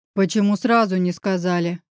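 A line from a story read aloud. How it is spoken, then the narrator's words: Growl. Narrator (Russian): прорычал я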